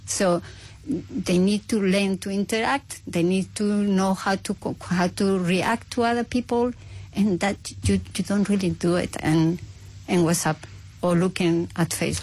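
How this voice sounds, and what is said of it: Spanish accent. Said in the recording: “originally from Spain, as you may hear from the accent”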